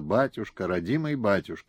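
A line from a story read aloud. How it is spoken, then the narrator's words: Quiet weeping. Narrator (Russian): тихо плакала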